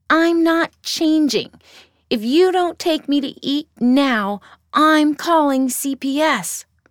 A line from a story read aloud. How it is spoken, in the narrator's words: Brindy yelled